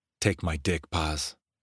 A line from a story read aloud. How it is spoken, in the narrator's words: ordered hoarsely